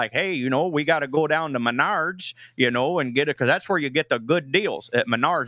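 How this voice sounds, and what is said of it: Put-on Midwest accent. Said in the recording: “do you have a Midwest accent impression you can give us? ... this is just how my in-laws talk up there in Iowa”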